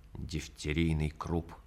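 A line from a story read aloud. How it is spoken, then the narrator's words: Through gritted teeth. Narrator (Russian): сквозь зубы сказал я фельдшеру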